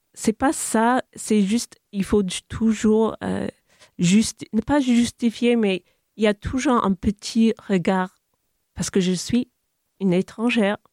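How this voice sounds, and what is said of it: English-speaking accent in French. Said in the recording (French): “j'ai l'accent anglophone”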